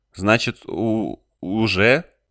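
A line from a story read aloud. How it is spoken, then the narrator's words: Stammering question. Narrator (Russian): заикаясь, спросила Дерин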